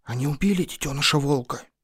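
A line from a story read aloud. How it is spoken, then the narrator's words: Whispered question. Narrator (Russian): шепотом спросила Муна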